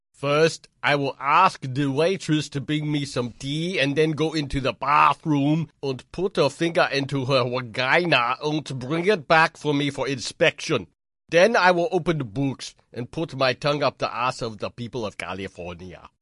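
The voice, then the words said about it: Arnold Schwarzenegger impression, Austrian-German accent. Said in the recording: “Arnold ... is that a German or Austrian accent?”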